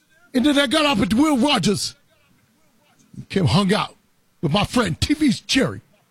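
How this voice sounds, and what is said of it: Imitates another person's voice, poorly. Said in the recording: “that was a terrible impression”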